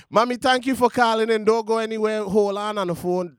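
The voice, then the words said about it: Speaker's own regional accent. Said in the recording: “My accent come out.”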